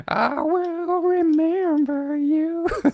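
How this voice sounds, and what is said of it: Sung imitation of another person's voice. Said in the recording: “my best Sarah McLachlan impression without warming up”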